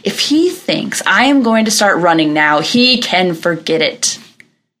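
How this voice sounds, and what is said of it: Angry voice. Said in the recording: “in this angry voice”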